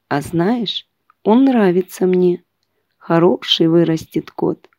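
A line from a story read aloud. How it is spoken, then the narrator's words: Quiet, affectionate. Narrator (Russian): хозяин ... тихо сказать жене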